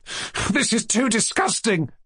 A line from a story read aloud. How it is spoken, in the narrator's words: cried Kolya, shedding tears of shame and vexation